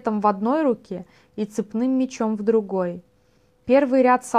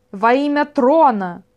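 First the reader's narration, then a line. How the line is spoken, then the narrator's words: Shout from crowd. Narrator (Russian): закричал кто-то в толпе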